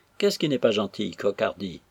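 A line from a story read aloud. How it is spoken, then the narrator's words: Plain question. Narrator (French): demanda M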